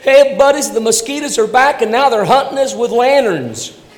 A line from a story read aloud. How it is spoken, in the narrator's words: he yelled to his buddies